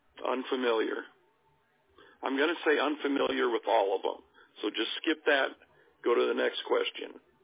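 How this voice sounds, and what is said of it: Hoarse, strained voice. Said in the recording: “I'm already getting hoarse. ... I can save my voice”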